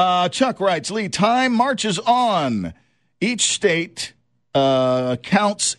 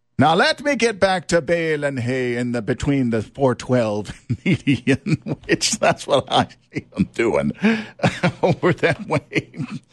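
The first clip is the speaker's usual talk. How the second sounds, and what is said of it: Attempted Amish accent. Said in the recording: “I don't know if that was an Amish accent. That was the best I could do.”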